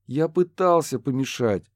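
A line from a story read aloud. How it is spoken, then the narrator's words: Sighing. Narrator (Russian): вздохнул Курт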